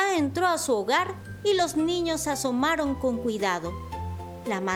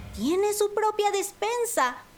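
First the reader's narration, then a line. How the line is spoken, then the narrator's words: Surprised exclamation. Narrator (Spanish): exclamó Panambi sorprendida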